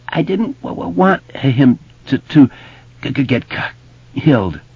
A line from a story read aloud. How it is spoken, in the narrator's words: Bill sobbed